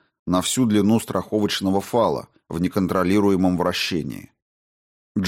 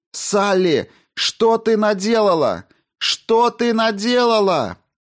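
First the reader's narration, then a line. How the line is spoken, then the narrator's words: Screaming through headphones. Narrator (Russian): вопил в наушниках голос напарницы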